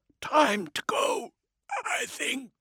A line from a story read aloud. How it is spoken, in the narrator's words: Eternity rasped